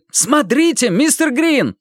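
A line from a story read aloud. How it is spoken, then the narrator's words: Sudden shout. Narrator (Russian): вдруг крикнул Мэтью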